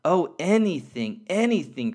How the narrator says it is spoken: cried the little soul

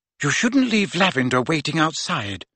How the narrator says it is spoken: she said quietly

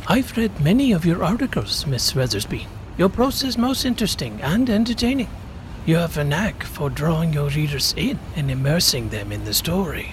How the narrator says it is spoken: calmly said

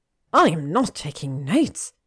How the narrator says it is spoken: Hermione snapped

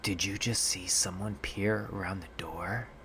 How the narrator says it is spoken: my mom whispering to me

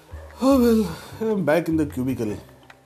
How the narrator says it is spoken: Adi said gloomily

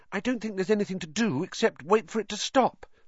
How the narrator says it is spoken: said Hermione anxiously

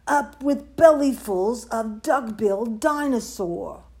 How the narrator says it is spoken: they shouted

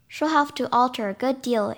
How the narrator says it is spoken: answered Mrs

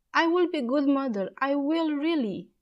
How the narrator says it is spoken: cried

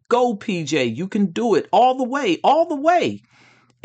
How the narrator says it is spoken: voices yelling

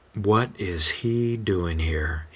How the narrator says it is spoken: He mutters

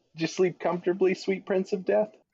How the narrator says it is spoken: Clay chuckles

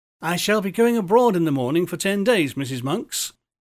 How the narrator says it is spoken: he said

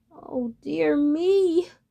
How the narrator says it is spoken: moaned the terrified duckling

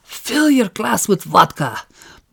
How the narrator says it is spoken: Brother Oakes' Soviet escort hissed in his ear

